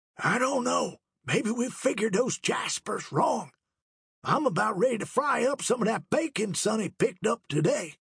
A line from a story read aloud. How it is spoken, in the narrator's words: whispered loudly